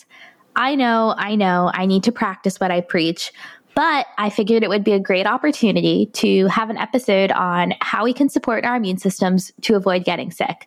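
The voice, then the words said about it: Congested voice with a cold. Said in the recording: “You may be able to hear it in my voice, but I too have succumbed to the common cold”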